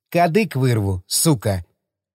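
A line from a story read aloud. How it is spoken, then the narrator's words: Menacingly gentle. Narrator (Russian): Братишка улыбнулся и почти ласково произнес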